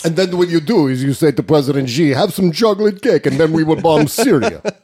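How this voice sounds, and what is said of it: Put-on Russian accent. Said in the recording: “in a Russian accent... Putin talking to Trump... that voice”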